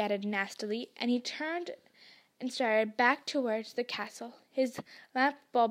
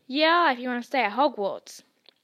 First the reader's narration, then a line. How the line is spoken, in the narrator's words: said Hagrid fiercely